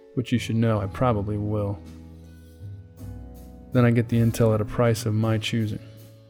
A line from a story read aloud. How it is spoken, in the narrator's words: I said and chuckled